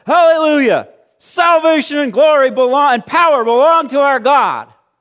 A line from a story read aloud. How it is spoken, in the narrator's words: what sounded like the roar of a great multitude in heaven shouting